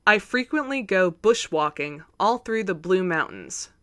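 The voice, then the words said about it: Put-on Australian accent. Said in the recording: “In an accent... It's going to be so offensive”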